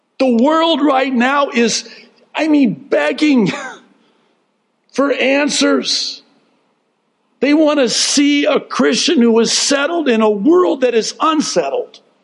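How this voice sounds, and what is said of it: Loud yelling, voice getting strained. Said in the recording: “losing my voice, so I'll stop yelling”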